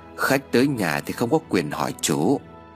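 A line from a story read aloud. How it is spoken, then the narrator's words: Hoarse voice from inside. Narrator (Vietnamese): Tiếng nói khàn khàn bên trong vang lên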